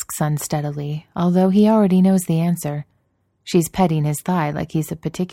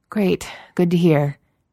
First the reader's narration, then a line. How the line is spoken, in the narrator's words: says weakly